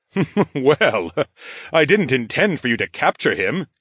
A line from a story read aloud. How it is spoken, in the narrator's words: King Rodion chuckled